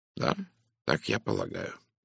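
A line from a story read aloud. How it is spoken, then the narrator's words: Calm. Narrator (Russian): спокойно ответил Пуаро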